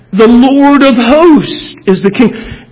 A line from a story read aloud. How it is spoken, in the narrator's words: the priests are yelling back